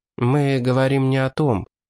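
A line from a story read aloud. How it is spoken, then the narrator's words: Sad, smiling. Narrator (Russian): грустно улыбнулся Тина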